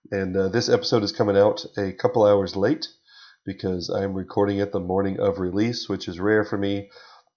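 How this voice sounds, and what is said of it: Raspy, nasal sick-sounding voice. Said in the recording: “my voice is a little raspy and nasally because I have been under the weather”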